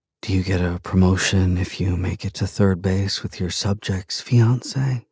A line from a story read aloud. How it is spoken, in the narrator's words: She whispers